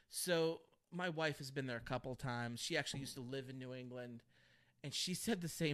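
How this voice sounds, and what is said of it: Usual voice. Nothing is said of it.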